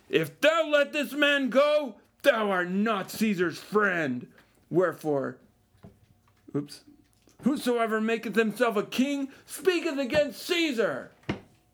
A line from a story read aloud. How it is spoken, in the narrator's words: But the Jews cried out, saying